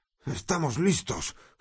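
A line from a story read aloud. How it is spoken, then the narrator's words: Groaning while straining. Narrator (Spanish): gimió mientras empujaban inútilmente la puerta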